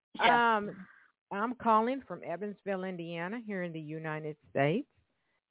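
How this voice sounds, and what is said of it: Southern American accent. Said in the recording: “My southern accent gets in the way sometimes. So if I kind of slur”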